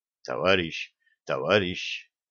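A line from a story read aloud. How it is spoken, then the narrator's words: Whisper. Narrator (Russian): Я понизил голос до шепота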